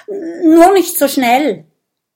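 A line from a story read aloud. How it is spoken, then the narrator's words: Small dragon stuttering. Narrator (German): stottert der kleine Drache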